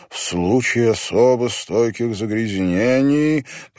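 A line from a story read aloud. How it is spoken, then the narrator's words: Resonant rolling reading voice. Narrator (Russian): прочитал он вслух звучным раскатистым голосом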